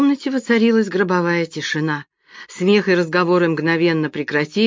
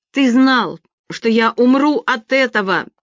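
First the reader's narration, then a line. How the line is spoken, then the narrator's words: Shout. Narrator (Russian): закричала она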